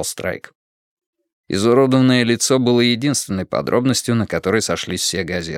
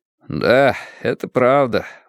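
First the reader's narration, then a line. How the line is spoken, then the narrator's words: Glum reply. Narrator (Russian): уныло отозвался Уордл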